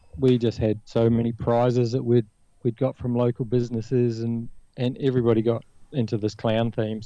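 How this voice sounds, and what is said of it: New Zealand accent. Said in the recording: “I don't know if you picked up the accent, but I'm originally from New Zealand.”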